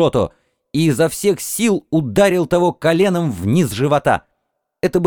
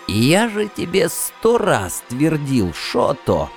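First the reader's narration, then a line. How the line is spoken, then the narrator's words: Creaky voice. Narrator (Russian): проскрипел Сай первый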